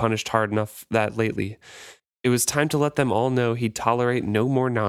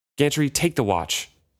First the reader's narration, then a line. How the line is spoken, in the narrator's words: Kyle snapped at him